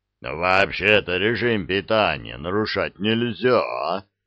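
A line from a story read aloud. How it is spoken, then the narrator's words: Giant's booming voice. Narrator (Russian): прогудел гигант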